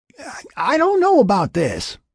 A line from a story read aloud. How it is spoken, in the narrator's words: Will called out from his side of the river